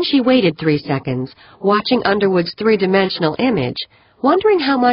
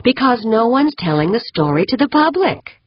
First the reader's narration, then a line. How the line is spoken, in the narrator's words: Edith replied smoothly